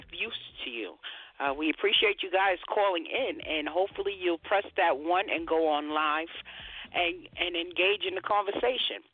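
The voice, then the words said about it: Scratchy, dry-sounding voice. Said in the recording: “My voice is a little scratchy today... pardon that ashy voice of mine... You sound a little parched.”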